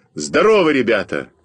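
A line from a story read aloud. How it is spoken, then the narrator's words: Shouted. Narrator (Russian): крикнул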